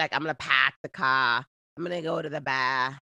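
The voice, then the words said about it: Imitated Boston accent, dropped R's. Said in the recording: “If I had a Boston accent, you wouldn't hear any R's. Not one R in there at all ... Bostonians don't ... They don't believe in R's. So they'd be like”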